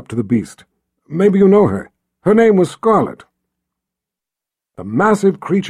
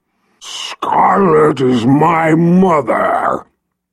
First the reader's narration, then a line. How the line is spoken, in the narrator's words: the dragon growled